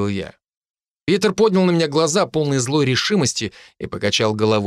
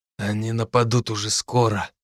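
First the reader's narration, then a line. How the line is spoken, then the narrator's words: Quiet. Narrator (Russian): сказал тихо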